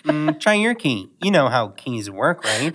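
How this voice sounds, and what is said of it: Pansy character voice with small pauses. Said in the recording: “your Pansy impression is that it's so good ... you add these, like, small, like, like pauses and stuff ... you've made her your own”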